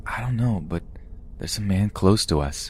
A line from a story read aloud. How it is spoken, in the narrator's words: Sophie whispered to me